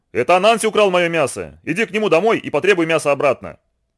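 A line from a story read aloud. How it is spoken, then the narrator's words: Furious shout. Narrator (Russian): рассвирепел и крикнул младшему сыну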